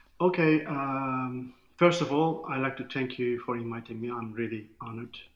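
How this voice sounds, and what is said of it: Turkish accent. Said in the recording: “from Turkey, so I'm really loving hearing your accent”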